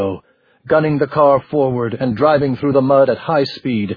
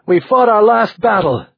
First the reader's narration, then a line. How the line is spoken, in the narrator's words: he shouted